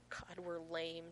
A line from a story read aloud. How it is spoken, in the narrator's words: John wheezes